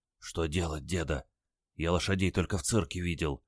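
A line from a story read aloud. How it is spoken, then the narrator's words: Glum whisper. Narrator (Russian): уныло шепнул он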